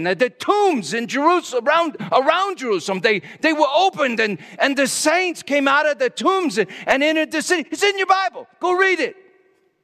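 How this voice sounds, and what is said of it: Yelling, loud preaching voice. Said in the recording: “Sorry, I'm yelling. Told myself I wouldn't do that.”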